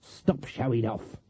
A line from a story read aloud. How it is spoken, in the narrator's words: Granny hissed